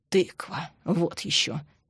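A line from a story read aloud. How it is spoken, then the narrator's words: Grumbling mutter. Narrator (Russian): буркнул Андрей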